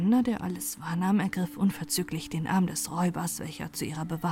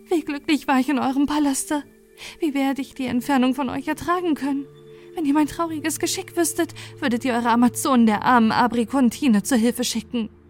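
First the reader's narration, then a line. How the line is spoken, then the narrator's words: Calling out. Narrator (German): rief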